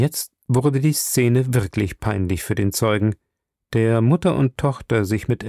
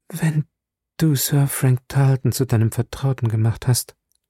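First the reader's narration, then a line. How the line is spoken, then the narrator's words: Tired older woman. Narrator (German): meinte die ältere Frau schließlich müde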